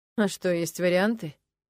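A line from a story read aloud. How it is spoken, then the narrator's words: Sad smile, young man. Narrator (Russian): печально улыбнулся парень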